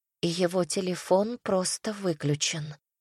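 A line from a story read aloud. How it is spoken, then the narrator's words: Quiet reply. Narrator (Russian): тихо ответила Полина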